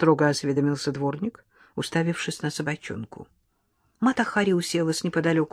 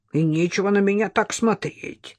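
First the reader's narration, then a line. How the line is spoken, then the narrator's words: Grumbling janitor. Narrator (Russian): заворчал дворник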